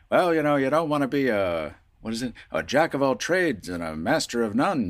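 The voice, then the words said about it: Old-time radio announcer voice. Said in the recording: “that was my grandfather's voice ... that 20s radio voice, that 40s radio voice”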